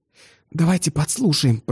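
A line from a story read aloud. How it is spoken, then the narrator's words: Whisper. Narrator (Russian): прошептала Глафира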